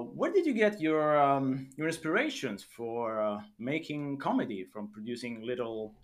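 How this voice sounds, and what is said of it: Italian accent. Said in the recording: “with your accent, which is pretty close. ... Is it an Italian accent? ... Yes. Yeah.”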